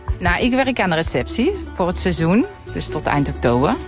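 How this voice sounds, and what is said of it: Dutch with Brabant accent. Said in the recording (Dutch): “jij hebt helemaal geen Frans tongval ... ik hou mijn Brabants accent. Ja, dat blijft gewoon.”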